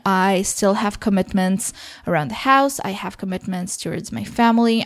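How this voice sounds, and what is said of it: Sick-sounding voice. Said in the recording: “I am still sick, as you probably can hear by my voice ... it sounds crappier than usual”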